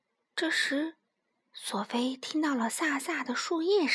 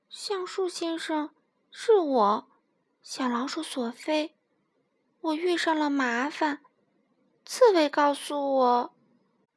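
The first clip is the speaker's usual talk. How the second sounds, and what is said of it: Timid, quiet voice. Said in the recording (Chinese): “怯生生的小声说”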